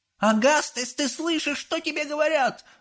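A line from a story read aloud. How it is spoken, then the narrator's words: Yelling. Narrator (Russian): заорала миссис Глуп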